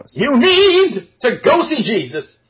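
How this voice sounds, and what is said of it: Put-on Polish preacher voice. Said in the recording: “Why do you sound like a Polish minister?”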